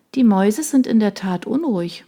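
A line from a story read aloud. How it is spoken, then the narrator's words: Nervous murmur. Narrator (German): murmelte Shona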